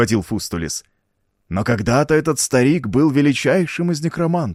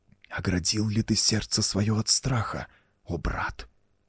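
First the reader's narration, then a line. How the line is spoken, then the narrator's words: Hissing whispered question. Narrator (Russian): свистящим шепотом спросил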